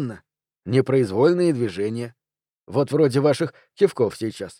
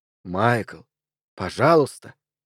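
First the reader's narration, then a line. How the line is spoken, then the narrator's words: Calm. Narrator (Russian): спокойно произносит он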